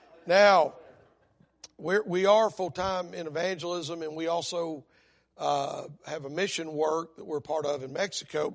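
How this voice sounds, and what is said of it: Hoarse voice. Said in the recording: “y'all pray for my voice. I got to go see a throat specialist. I've been hoarse since March”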